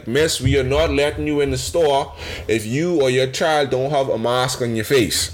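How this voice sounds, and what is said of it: Put-on Bahamian accent. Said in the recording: “She ain't said in a Bahamian accent”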